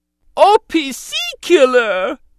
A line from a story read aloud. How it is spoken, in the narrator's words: Jar Jar cried in dismay